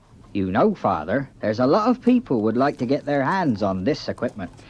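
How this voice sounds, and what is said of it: Put-on accent. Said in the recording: “you can drop the accent.”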